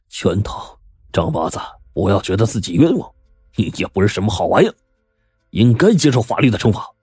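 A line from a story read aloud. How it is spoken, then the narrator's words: Bitter laugh. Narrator (Chinese): 杜怀仁苦笑着说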